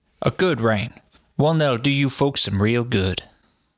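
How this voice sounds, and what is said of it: Put-on accent. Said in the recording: “can you say it in the accent?”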